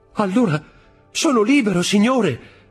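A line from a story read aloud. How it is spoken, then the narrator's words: Overjoyed exclamation. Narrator (Italian): esclamò Dantès al colmo della gioia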